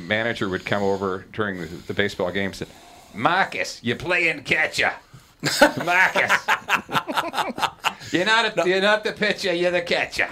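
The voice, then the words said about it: Put-on Boston accent. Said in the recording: “making fun of an accent there of a Bostonian”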